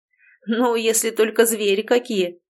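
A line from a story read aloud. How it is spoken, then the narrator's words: Chuckle. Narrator (Russian): хохотнул Семен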